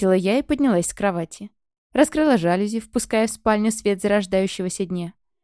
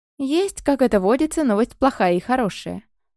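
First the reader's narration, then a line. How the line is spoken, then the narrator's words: Cheerful, upbeat. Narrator (Russian): бодро завела Ульяна, и стало ясно, что отчаиваться из-за плохой она не собирается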